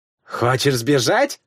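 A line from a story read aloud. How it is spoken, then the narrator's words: Scoffing. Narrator (Russian): фыркнула Вигдис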